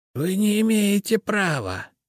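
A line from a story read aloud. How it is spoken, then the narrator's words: Strangled hiss. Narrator (Russian): задушенным голосом прошипела Генриетта Абелардовна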